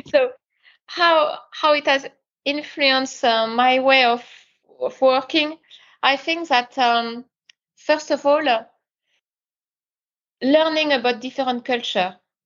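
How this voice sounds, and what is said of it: Strong French accent. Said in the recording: “you are French ... I've got a very, very strong accent”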